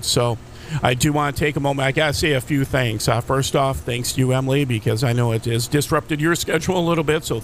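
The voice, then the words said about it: Slightly raspy voice. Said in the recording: “Had a breathing tube inserted down my throat, and that's why I'm a little bit raspy this morning”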